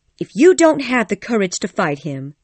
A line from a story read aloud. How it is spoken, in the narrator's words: she said angrily